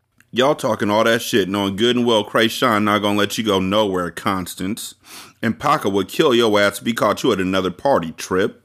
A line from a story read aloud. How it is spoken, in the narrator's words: I laughed